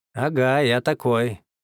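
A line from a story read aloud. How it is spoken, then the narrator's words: Mocking. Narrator (Russian): насмешливо вставил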